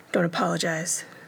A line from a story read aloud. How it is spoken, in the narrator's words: Derek murmured